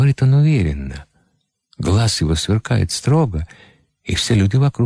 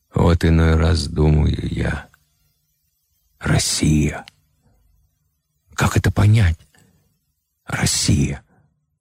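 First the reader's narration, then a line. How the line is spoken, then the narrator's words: Hoarse question. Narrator (Russian): Колченога-печеник Марк Иванов-Ключников сипло спрашивает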